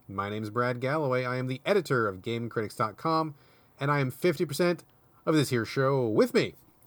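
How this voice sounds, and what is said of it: Extra peppy, upbeat delivery. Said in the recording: “You're sounding extra peppy today”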